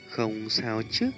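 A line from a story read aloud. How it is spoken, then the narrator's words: Pained, gentle concern. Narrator (Vietnamese): nhìn thấy sắc mặt tái nhợt của hắn không khỏi đau lòng, nói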